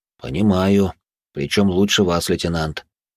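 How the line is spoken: Reply with heavy sigh. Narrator (Russian): ответил Натан и тяжело вздохнул

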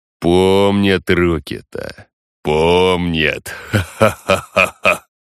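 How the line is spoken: Clear, unclouded laughter. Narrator (Russian): засмеялся чистым, незатуманенным ненавистью смехом

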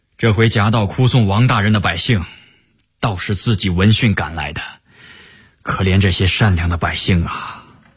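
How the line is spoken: Sighing with emotion. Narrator (Chinese): 陈廷敬感叹道

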